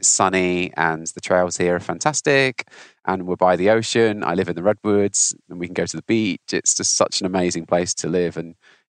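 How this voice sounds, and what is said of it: Non-local accent. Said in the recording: “I'm not from Santa Cruz, so you can probably tell from my accent”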